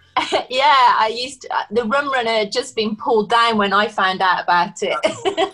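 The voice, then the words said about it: Slight Birmingham (Brummie) accent. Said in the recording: “I can hear a little bit of the Brummy accent coming across ... You can hear my Brummy accent now”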